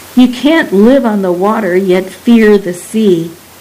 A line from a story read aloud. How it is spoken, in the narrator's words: cup her mouth and yells